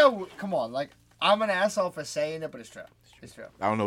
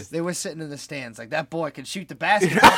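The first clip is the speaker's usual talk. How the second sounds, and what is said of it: Poor attempt at Boston accent. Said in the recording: “I don't know what that accent, though. That was not a Boston accent at all. ... He was going for Boston. ... A New Englandish accent,”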